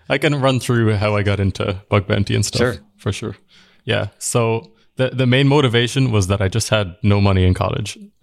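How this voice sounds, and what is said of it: Irish accent. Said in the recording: “In case you can't tell from his accent, ... is from Ireland.”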